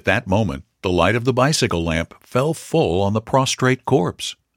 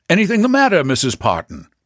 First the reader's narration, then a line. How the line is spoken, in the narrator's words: the horseman, sighting the woman, called out